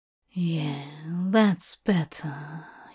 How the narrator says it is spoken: he mumbles, his tongue heavy and his words slurred

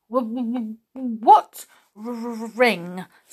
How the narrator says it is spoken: stammered the goblin, going pale with fright

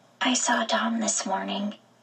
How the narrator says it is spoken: in only a whisper, I said

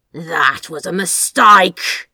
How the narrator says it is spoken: he bluffed, the words crackling into his hiss

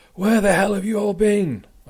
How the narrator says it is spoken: shouted

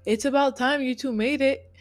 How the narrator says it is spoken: Angel called out

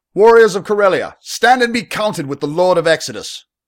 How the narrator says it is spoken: Arius bellowed

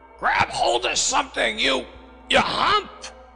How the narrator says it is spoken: Wolf Larson shouted from the poop

